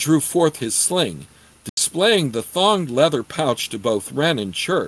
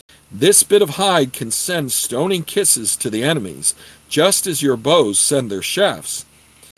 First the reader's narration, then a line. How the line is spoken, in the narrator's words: said